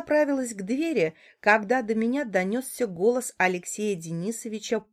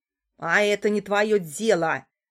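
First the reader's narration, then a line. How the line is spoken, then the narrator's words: Barked. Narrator (Russian): рявкнула Яна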